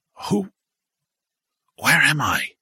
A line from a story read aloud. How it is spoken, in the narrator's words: Frank stammered